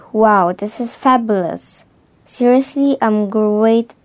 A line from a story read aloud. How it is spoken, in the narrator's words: She cried